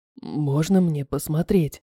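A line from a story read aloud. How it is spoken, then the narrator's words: Quiet question. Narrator (Russian): Тихо спросил Руан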